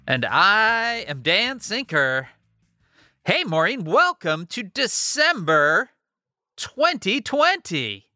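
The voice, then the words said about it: Upbeat, energetic voice. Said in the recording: “you hear it in my voice? I'm feeling up. ... I thought I'd bring a little bit of energy to things today.”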